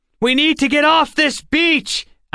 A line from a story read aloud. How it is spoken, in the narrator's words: Alex yelled over the wind